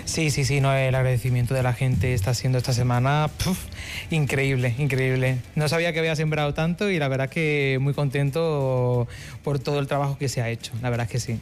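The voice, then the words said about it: Slightly faded Málaga Spanish accent. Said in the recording (Spanish): “el acento te delata. ¿Malagueño? ... Sí, malagueño. Sí. Aunque se ha perdido un poquito ya el acento”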